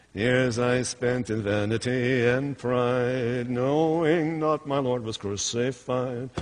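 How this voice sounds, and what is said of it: Sings with a put-on accent. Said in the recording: “the song and the accent.”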